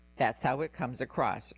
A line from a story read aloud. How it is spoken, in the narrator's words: Reardon said